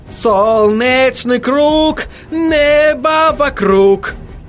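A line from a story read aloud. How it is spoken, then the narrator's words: Howling. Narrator (Russian): Взвыл Отто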